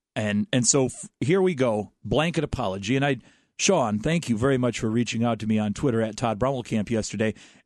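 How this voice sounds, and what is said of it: Hoarse, strained, fading voice. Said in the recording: “I may be losing my voice”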